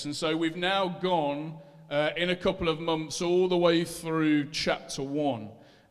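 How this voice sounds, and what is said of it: Leicester English accent. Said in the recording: “I know it sounds in my Leicester accent like I'm saying Acts”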